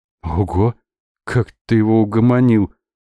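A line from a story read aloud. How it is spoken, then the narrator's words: Breathless exhale. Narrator (Russian): выдохнул Миша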